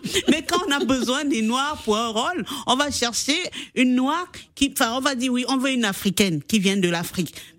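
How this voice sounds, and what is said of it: French with an African accent. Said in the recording (French): “on m'a dit que j'avais un accent ... quand tu parles avec ton accent, on dit non, tu as l'accent”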